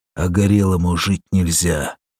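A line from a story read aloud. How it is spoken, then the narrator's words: Through clenched teeth. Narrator (Russian): процедил сквозь стиснутые бульдожьи зубы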